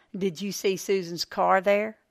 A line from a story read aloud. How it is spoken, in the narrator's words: Jeff sighed heavily